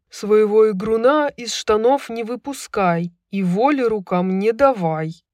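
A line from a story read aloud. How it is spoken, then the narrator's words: Growling. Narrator (Russian): прорычал Микай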